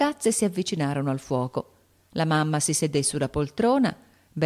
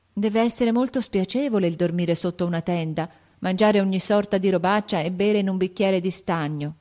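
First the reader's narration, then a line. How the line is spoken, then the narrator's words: Sighed. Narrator (Italian): sospirò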